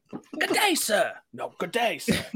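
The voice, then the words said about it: Rich English accent. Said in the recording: “My rich ... English accent.”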